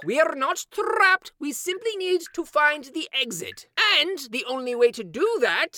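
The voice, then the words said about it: Character voice with an accent. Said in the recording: “making fun of my accent.”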